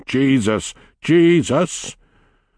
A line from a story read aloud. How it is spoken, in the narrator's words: He roared